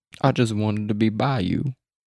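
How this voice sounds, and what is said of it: Attempted put-on accent. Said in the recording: “That was almost a good accent.”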